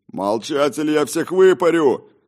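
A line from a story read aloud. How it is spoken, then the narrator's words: Distant man shouting. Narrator (Russian): закричал мужчина в дальнем конце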